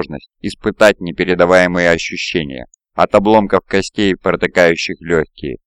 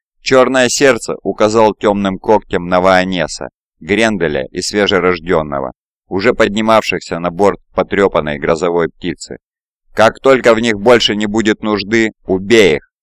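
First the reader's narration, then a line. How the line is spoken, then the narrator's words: Plain. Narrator (Russian): сказал тиран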